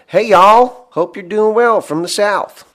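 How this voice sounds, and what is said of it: Put-on Southern US accent. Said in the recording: “Now my real one... Bill's from the South. That's how they talk down there.”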